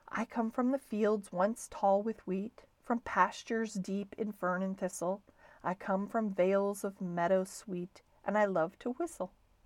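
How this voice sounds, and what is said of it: Soft, musical voice. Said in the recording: “said the bird softly in a musical voice.”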